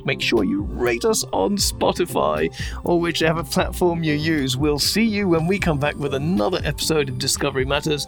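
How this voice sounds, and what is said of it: English accent. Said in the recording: “my beautiful English accent”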